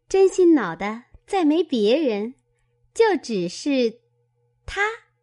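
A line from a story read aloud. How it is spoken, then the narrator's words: Laughing. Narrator (Chinese): 琥珀笑道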